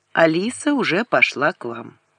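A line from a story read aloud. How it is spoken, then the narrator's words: Calm. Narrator (Russian): он спокойно сказал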